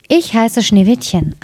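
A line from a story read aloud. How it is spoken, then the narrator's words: Plain. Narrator (German): antwortete es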